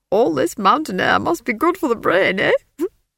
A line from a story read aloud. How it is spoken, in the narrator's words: He laughed